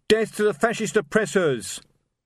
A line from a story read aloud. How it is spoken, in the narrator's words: a voice shouted